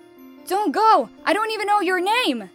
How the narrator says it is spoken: shouted the prince

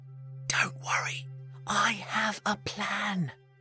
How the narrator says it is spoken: whispered Hansel to Gretel

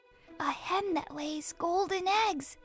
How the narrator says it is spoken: whispered Jack

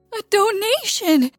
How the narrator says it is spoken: he cries

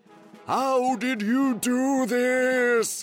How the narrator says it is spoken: He yelled

